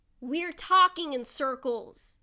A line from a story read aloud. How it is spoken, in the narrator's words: he shouts